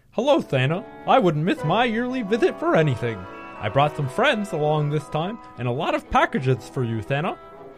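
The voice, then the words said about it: Silly clown character voice. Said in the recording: “Give him the clown voice ... that's why I did the clown voice”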